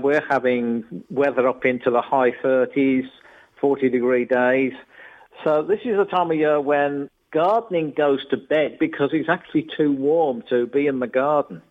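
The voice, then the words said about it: Birmingham English accent. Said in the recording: “you probably can tell, Peter, from the accent that I'm a Birmingham boy originally ... Yes, very much so.”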